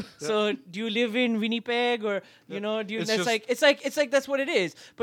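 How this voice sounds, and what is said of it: Usual voice. Nothing is said of it.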